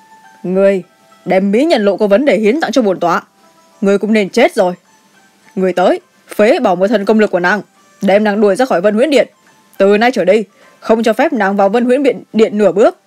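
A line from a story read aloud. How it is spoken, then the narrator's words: Cold snort, shouting. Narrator (Vietnamese): Cung chủ quăng nàng một cái hừ lạnh, quát lên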